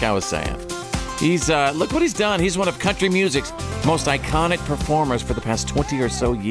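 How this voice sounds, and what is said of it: Usual voice. Nothing is said of it.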